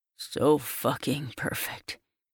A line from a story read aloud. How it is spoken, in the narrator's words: he murmurs against my skin